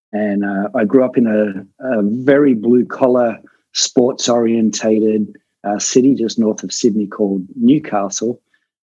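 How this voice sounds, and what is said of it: Australian accent. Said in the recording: “my accent for those Canadian listeners back in Australia”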